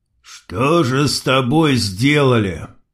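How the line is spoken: Muffled strained voice. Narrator (Russian): Глухо выдавил Крот

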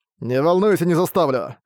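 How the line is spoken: Snorting. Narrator (Russian): Фыркнул Арк

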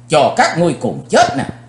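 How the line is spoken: Angry loud shout. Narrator (Vietnamese): Chí Tôn tức giận, chàng hét lớn

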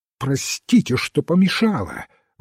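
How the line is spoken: Sharp, commanding exclamation. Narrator (Russian): воскликнула так резко, словно приказывала, а не просила прощения

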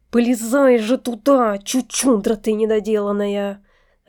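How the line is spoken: Irritated hiss, man. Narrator (Russian): раздраженно шипел мужчина

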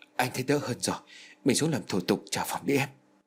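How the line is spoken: Frightened urging. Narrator (Vietnamese): nó giục trong sự sợ hãi

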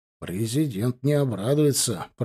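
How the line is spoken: Grumbling, calming down. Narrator (Russian): проворчал Миготин, начиная успокаиваться

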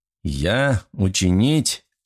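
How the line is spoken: Malicious laughter. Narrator (Russian): агент … злобно засмеялся

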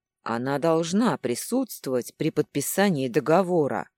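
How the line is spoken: Father's deep bass voice. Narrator (Russian): пробасил отец

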